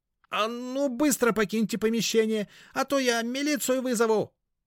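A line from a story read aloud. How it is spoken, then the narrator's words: Yelling. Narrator (Russian): заорал он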